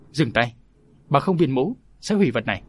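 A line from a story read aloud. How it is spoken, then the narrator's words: Sharp shout. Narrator (Vietnamese): tiếng quát này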